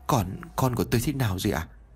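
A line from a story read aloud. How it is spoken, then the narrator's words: Sad, slightly low voice. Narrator (Vietnamese): cô ấy trả lời tôi với giọng hơi buồn và hơi thấp giọng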